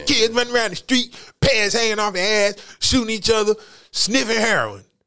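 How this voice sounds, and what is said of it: Old grandmother voice. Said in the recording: “I sound like an old person. That was my imitation of a grandmother.”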